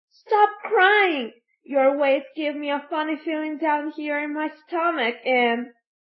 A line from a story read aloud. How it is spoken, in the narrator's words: After sneezing, Fire Eater cried to Pinocchio